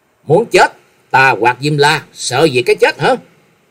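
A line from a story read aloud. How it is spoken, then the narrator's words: Loud angry shout. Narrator (Vietnamese): Trần Lâm quát lớn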